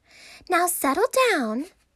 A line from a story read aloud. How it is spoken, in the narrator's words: said Miss Nelson in a sweet voice